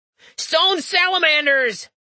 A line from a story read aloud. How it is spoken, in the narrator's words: he yelled